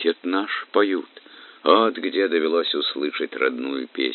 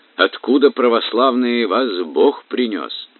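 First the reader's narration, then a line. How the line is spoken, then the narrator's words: Shouting. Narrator (Russian): гребцы закричали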